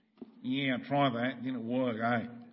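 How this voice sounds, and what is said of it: Put-on Australian accent. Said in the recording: “I'm putting it in an Aussie accent”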